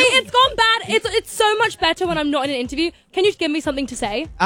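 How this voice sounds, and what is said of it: Usual voice. Nothing is said of it.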